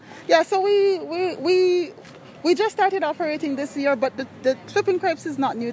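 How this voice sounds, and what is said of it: Jamaican accent. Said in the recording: “The accent is from where? ... Jamaica.”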